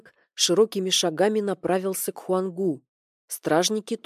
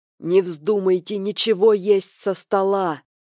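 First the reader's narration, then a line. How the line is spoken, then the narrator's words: Elder's hoarse excited shout. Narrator (Russian): прокричал хрипловатым от волнения голосом старейшина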